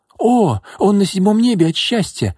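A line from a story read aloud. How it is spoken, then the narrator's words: Joyful exclamation. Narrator (Russian): радостно воскликнула Соня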